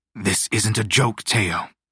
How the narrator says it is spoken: Tuemac said, his voice suddenly sharp

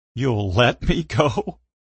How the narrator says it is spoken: I laughed

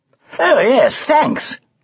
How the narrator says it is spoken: cried Sir Tumbleweed

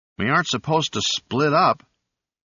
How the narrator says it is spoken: the voice in his headphones protested weakly

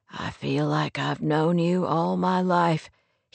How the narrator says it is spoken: whispered hoarsely, his expression uncertain

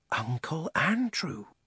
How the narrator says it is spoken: whispered Diggory

